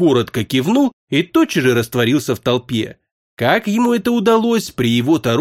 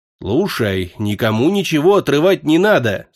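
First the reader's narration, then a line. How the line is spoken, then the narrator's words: Stern. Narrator (Russian): строго сказал Ниясыть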